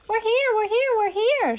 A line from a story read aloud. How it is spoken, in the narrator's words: shouted the children, very thrilled